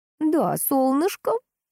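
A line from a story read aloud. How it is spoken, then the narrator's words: Joyful grandmother. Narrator (Russian): радостно отозвалась бабушка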